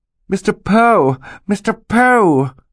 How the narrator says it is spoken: Violet cried

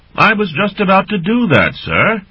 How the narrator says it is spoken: Bargle shouted cheerfully back

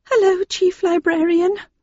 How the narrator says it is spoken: said nervously

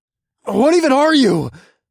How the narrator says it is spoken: asked in a terrified voice

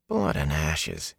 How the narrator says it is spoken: he mumbled

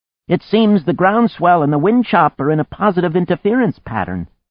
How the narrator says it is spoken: Anne, standing at the halyards, called out

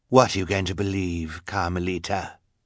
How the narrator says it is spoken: Count Olaf asked

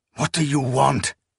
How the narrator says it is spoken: Akamian hissed

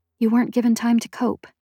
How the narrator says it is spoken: I whispered

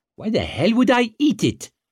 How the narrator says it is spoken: she snapped

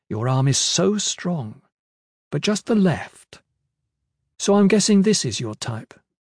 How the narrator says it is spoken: she said in an appreciative tone

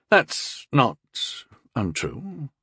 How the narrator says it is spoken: he said, quietly choking out the words from between clenched teeth

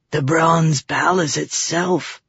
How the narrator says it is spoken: Hukin breathed

